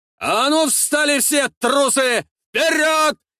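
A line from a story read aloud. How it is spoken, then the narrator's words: Shouting. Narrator (Russian): кричал Димитр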